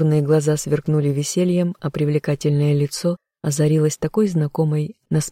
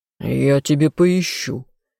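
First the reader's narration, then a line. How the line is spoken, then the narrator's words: Growl. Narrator (Russian): рыкнул любимый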